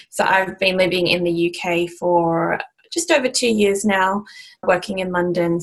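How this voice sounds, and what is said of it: Australian accent. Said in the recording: “You can probably tell by the accent that I'm from Australia.”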